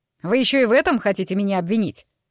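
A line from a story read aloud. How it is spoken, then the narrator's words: Snapped. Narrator (Russian): огрызнулся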